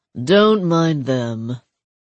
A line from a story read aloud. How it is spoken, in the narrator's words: he said, his tone already bored